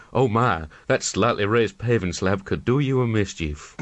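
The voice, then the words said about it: Sultry, honking imitated woman's voice. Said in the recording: “Greta Garbo sultrily honking ... is that your Greta Garbo impression? ... it's my first go at it”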